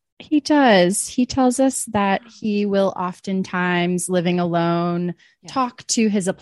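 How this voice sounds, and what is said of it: Usual voice. Nothing is said of it.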